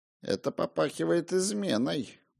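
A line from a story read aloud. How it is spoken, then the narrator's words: Muttered. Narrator (Russian): пробормотал отец Парлибен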